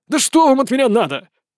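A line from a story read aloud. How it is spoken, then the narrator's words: Irritated old man. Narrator (Russian): раздраженно ответил старик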